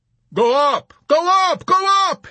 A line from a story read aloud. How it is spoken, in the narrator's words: he shouted frantically at McWatt, hating him venomously